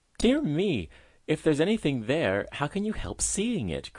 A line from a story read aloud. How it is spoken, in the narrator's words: cried the mother, rather teased by her daughter's inquiring spirit